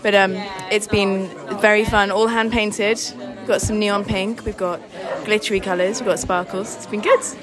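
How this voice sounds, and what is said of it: Slightly husky, strained voice. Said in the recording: “lost my voice slightly. I sound a bit husky.”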